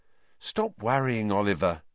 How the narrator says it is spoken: said Alicia soothingly

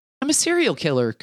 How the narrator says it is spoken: chirps

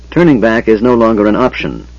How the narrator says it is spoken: Tanis said coldly

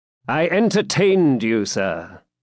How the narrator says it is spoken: said John, haughtily

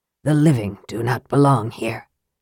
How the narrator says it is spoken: Raceland said, his voice barely above a whisper

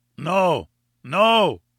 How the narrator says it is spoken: cried

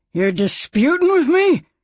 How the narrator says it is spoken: He snarled

